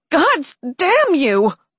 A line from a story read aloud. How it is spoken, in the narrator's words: She screamed in his face